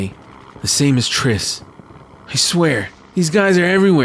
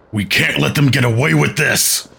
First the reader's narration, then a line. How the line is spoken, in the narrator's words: Bromdeer growls, angrily